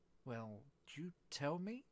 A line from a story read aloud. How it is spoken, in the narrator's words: said Alice a little timidly